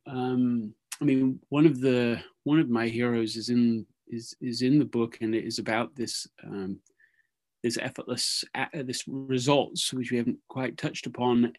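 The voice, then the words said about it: British accent. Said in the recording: “awesome British accent voice”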